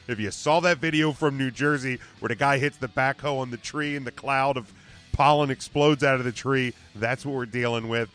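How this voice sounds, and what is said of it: Rough, strained voice. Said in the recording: “my voice is all jacked up”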